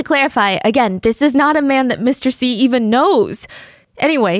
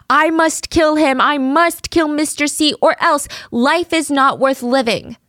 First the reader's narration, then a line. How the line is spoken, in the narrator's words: he was screaming